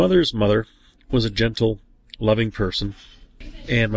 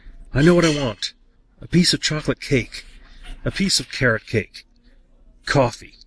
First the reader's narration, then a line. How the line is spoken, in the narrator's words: before dozing into a coma, she blurted out